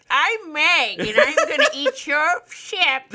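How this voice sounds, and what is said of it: Silly voice for a talking shark. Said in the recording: “That's what the Meg sounds like... That's your Meg impression... That's my the Meg impression.”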